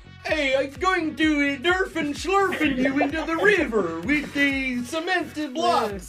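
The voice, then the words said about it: Swedish mafia guy character voice. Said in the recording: “do a Swedish Mafia guy impression ... It's a mafia member ... The Swedish chef”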